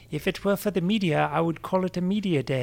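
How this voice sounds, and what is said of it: Chris Froome accent impression. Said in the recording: “my Chris Froome accent ... speak in a Chris Froome voice”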